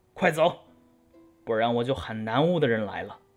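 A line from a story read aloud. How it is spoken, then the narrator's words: Loud scolding. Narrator (Chinese): 宁采臣大声斥道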